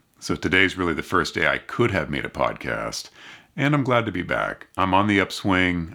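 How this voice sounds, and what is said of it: Congested, sore-throated voice. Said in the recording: “You can probably still hear it in my voice... I still have a bit of congestion and sore throat and cough”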